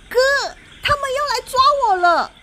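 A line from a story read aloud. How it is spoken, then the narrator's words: Calling out, frightened. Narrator (Chinese): 妹妹 脸贴着纱窗，向餐桌上的哥哥喊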